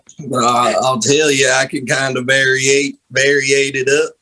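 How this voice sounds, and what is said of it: Put-on Southern accent. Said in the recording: “I can't even do a southern accent hearing your southern accent ... this is about the only accent I can do”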